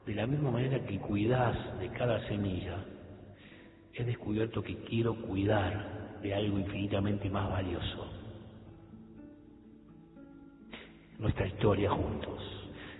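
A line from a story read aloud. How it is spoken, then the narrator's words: Whisper. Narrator (Spanish): susurró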